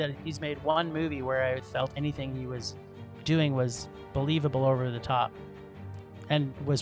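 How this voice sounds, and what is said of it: Usual voice. Nothing is said of it.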